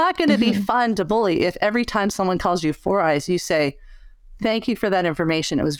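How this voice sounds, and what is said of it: Usual voice. Nothing is said of it.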